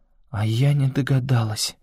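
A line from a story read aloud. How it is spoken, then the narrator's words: Barely audible. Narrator (Russian): едва слышно промолвила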